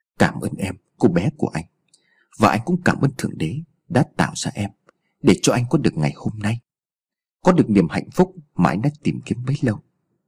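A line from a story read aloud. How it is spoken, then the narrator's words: Soft. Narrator (Vietnamese): Anh chỉ khẽ nói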